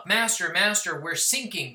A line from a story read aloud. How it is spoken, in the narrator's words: screamed